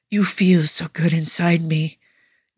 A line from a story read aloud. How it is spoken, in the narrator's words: Nicola gasps